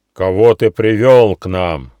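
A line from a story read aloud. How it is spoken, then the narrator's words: Menacing question. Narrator (Russian): грозно спросил каменный баран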